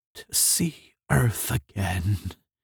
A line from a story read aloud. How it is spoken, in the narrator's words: he said weakly